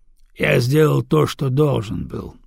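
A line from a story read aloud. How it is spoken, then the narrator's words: Calm. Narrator (Russian): спокойно ответил Дагомара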